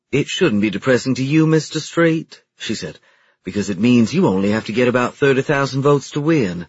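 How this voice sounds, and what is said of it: Refined high-society Southern accent. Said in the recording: “spoke with a southern accent, but it was refined, a bit like the high society Atlanta or Charleston accents ... it made her sound like a snob”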